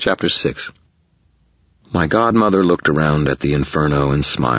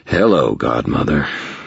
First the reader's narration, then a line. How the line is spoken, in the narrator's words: said in a rough voice